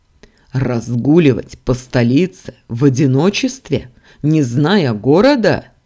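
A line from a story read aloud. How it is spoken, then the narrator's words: Growling. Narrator (Russian): рычал Дамиан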